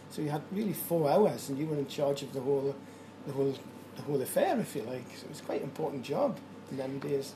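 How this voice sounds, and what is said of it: Newcastle (Geordie) accent. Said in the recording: “I was trained at Newcastle, you might guess by my accent”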